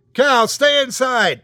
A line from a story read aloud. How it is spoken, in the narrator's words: I yelled